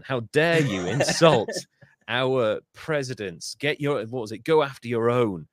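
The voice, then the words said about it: Put-on American accent. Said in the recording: “in an American accent”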